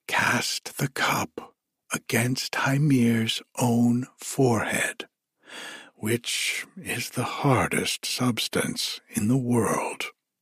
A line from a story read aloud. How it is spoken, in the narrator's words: the voice of Tyr's mother whispered in his ear